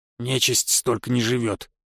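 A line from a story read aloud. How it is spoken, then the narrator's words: Grumbling imp. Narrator (Russian): пробурчал бес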